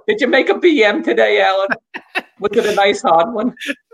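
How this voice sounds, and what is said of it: Put-on mother voice. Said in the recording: “That's always my accent I give to my mother, even though she sounds nothing like that.”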